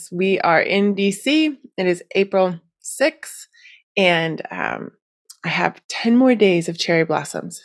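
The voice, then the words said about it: Nasal, stuffy congested voice. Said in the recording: “as you can still hear in my voice ... I am slowly getting over my allergies ... I sound a bit nasally, yes, or stuffy”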